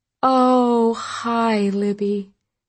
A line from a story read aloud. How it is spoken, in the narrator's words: gasped